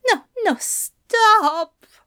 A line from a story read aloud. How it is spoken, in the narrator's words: Aziraphale groaned